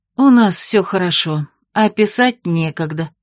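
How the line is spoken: Guilty sigh. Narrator (Russian): виновато вздохнула Бетриса

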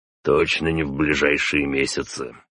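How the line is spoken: Plain. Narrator (Russian): ответил отец

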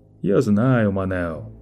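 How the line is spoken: Soft, ingratiating tone. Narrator (Russian): Продолжало Лето все тем же мягким, вкрадчивым тоном

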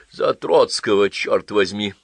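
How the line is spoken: Grumbling. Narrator (Russian): проворчал Востриков

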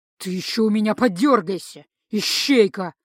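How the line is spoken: Hissed threat. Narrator (Russian): прошипел некромант

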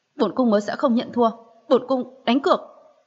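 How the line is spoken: Defiant angry outburst. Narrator (Vietnamese): Một cảm giác không chịu khuất phục nổi lên, liền tức giận bật thốt ra

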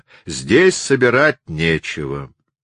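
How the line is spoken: Plain. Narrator (Russian): ответила молодая женщина

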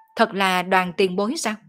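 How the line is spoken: Sudden loud laugh. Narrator (Vietnamese): Ô Quảng chợt cười to

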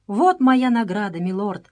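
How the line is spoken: Exclamation. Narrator (Russian): воскликнул Джордж

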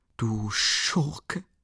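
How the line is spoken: Indignant whisper. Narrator (German): flüsterte Dunja empört

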